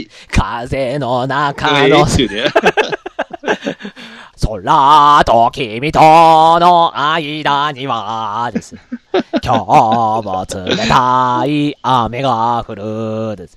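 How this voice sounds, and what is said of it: Imitates another person's singing voice. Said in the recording (Japanese): “僕の中島みゆきのモノマネですけどね。”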